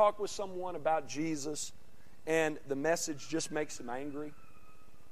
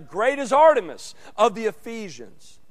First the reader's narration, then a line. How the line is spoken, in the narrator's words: got so mad that they just began to shout loud together